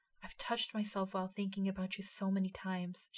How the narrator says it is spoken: breathed

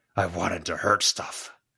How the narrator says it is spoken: Gashwad growled

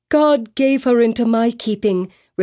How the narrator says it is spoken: repeated Hester Prynne, raising her voice almost to a shriek

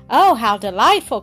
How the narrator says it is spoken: cried Doris in great relief

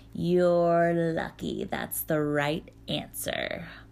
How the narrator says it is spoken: Baba Yaga purred

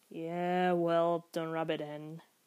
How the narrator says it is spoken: he sighed

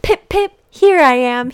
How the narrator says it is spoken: cried

